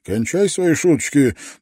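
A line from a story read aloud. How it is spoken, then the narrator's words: Grumbling. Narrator (Russian): проворчал Кордор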